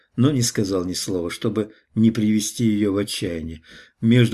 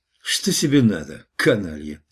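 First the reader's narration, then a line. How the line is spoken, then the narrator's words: Menacing question. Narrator (Russian): спросил я грозно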